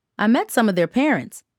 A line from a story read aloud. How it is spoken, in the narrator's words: Aunt Charlotte said